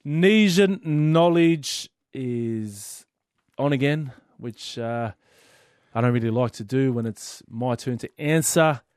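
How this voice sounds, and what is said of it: Hoarse, partly lost voice. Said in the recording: “my voice is a little bit gone as well from screaming at the TV”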